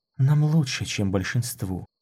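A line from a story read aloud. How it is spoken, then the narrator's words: Barely breathed words. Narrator (Russian): едва выдохнула она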